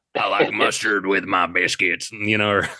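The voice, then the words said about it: Carl from Sling Blade voice. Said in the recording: “it's Carl from, Sling Blade ... That's the way that I would do that voice when I was a kid.”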